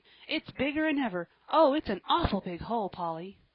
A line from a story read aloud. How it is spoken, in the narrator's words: he added cheerfully